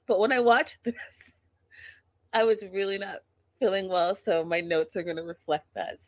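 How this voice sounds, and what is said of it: Sick, under-the-weather voice. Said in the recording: “I've been really under the weather, as you can tell by my voice.”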